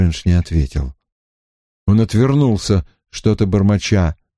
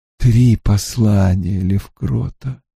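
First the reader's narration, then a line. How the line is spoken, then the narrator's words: Weary. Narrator (Russian): устало вымолвил Стрэндж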